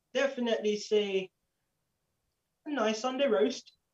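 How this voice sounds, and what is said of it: Birmingham accent. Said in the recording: “Was that your Birmingham accent there? ... it's better than Birmingham accent.”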